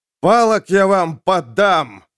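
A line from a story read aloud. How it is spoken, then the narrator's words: Shouting, spitting blood. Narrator (Russian): закричал, брызнув кровавой слюной Беляевский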